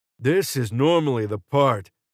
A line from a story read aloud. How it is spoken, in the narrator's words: Carmine said, his voice strained with exertion